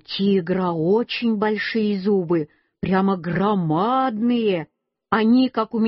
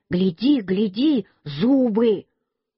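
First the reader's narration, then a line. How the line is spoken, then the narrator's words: Shout. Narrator (Russian): Петя мне крикнул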